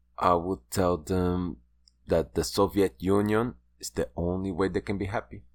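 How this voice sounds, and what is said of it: Bad put-on Russian accent. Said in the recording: “This is my Russian accent, ... which is terrible.”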